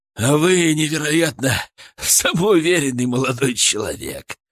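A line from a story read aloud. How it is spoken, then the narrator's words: Breathy, after laughing. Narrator (Russian): Выдохнул он, отсмеявшись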